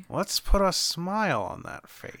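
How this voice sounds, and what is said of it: Joker impression. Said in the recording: “This is the only Joker voice I'm doing this episode.”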